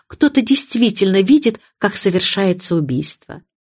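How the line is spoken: Soft plaintive voice. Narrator (Russian): продолжала мисс Марпл своим мягким жалобным голосом

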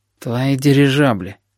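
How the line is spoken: Blind man grumbling. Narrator (Russian): проворчал слепой

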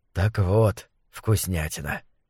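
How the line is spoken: Soft explaining. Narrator (Russian): мягко объяснил Фасоль

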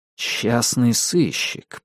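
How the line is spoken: Muttered. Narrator (Russian): пробормотал я

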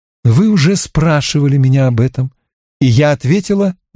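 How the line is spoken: Clear, bright voice. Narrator (Russian): Она ответила чистым, ясным голосом

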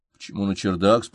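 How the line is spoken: Plain. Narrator (Russian): спросил я

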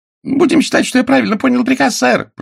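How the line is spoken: Shouted. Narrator (Russian): прокричал Финни

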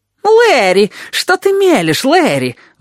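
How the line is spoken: Shrill shriek. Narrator (Russian): взвизгнул он

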